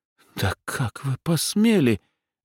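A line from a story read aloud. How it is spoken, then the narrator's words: Angry hiss. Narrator (Russian): гневно зашипела на меня женщина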